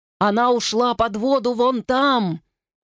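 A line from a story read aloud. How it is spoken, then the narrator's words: Yell. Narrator (Russian): заорал Дон Мин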